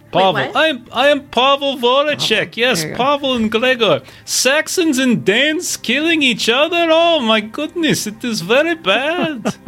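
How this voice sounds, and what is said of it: Put-on Russian accent. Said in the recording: “they kind of have that Russian ... I got to get my Russian again ... I want to get confident in the voice ... sink into accent”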